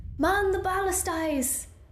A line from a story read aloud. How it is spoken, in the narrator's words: Martine shouted